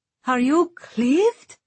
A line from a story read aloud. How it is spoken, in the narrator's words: Safi cried